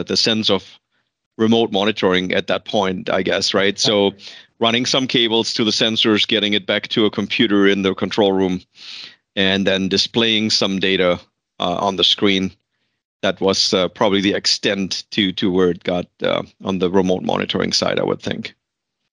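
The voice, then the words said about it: Slight German accent. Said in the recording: “I detect a slight accent ... I was born and raised and educated in Germany”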